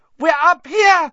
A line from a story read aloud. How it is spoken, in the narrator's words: Hermione screamed suddenly